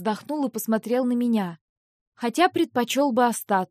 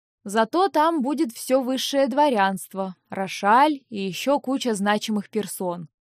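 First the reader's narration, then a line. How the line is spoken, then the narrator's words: Mocking drawl. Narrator (Russian): насмешливо протянул Винс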